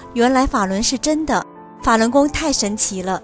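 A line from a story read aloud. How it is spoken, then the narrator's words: Amazed crowd. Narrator (Chinese): 人们惊叹道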